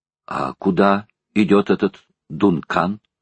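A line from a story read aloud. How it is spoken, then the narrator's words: Plain. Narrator (Russian): спросил он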